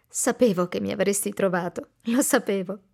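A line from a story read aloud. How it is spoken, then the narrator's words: Murmured, laughing and crying. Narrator (Italian): Serena ride e piange allo stesso tempo e mormora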